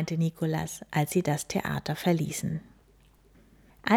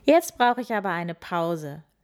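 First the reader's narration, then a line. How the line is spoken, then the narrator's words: Laughing. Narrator (German): lachte sie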